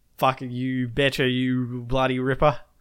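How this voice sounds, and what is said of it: Exaggerated fake Australian accent. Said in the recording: “If you enjoyed bad ... caricatures of Australian accents”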